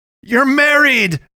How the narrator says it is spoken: I shouted at her

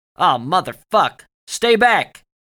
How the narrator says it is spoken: Dugan shouted, but his voice was aimed in the opposite direction

